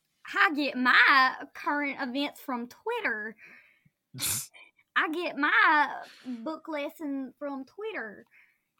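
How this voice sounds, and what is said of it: Exaggerated thick Southern accent. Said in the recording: “Are you intentionally making your accent thicker here? ... Yes ... we sound Southern ... you definitely sound more Southern than I do.”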